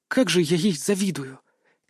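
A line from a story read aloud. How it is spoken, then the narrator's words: Quiet mumble. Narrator (Russian): Тихо пробормотала Ханака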